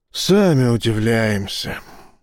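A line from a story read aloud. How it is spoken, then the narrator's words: Sighing. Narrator (Russian): вздохнул сержант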